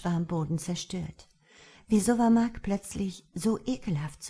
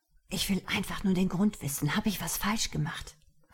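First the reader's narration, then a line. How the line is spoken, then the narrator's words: Whispered. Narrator (German): flüsterte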